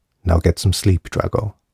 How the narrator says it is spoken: he said quietly

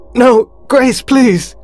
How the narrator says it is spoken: He screamed as he felt things writhing and wriggling inside his suit

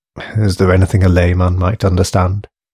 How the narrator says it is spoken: he asked, smiling wearily to himself

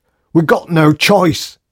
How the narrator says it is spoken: he screamed at O'Keefe

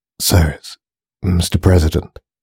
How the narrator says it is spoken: began Spears, his voice dry and nervous

